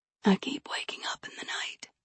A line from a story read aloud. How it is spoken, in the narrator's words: she whispered